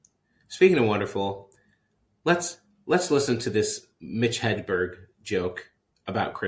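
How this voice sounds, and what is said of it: Usual voice. Nothing is said of it.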